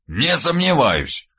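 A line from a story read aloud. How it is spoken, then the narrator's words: Old man's snort. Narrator (Russian): хмыкнул дед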